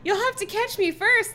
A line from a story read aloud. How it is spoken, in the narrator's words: Lefty cried